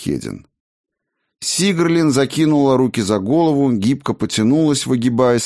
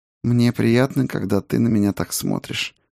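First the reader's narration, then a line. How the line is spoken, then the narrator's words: Smiling purr. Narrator (Russian): промурлыкала Сигерлин, улыбаясь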